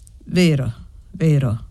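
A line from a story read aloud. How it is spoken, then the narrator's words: Grave woman's voice. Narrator (Italian): ammise la donna con voce grave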